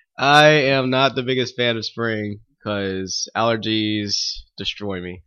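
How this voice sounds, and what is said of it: Congested, stuffy nasal voice. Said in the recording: “You can hear it in his voice ... not feeling so well. ... my nasal passages are getting the better of me right now.”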